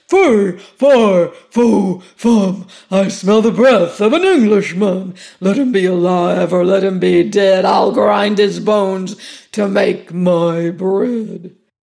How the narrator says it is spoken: the giant came home, and as soon as he had crossed the threshold, he roared out

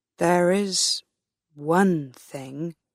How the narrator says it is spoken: Trendle began slowly

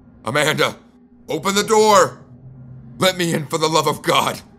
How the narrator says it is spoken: I shouted

